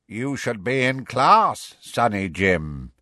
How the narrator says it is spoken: one of them croaked

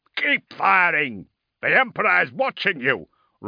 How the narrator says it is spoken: roared Ordermail

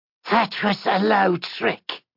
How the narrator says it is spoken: rasped the other heart wraith

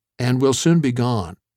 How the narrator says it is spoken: Streeter said

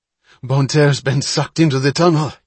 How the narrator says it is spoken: he gasped

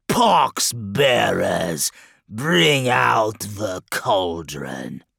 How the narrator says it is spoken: he bellowed

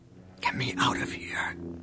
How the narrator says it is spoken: she whispered to Luke

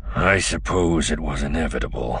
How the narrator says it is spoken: he murmured

